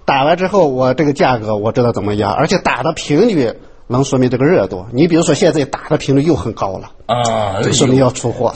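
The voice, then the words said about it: Regional accent like Pan Shiyi's. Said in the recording (Chinese): “您这个口音很像的潘石屹”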